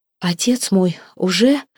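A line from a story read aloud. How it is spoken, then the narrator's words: Hoarse, unfamiliar voice. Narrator (Russian): Голос ее звучал хрипло и незнакомо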